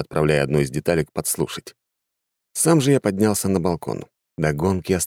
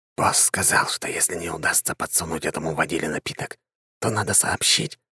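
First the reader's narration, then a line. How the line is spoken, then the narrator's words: Waiter whispering. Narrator (Russian): зашептал худощавый официант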